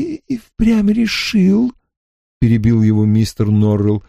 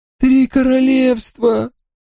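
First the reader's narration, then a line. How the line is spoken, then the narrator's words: Exclaimed. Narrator (Russian): воскликнул мистер Норрелл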